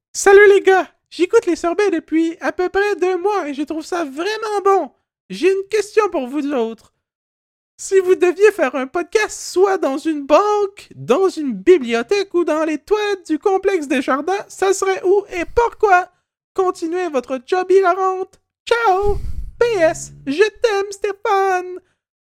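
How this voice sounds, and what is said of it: Put-on character voice. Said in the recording (French): “Je vais prendre une voix.”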